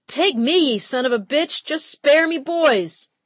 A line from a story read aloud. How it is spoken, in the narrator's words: shouted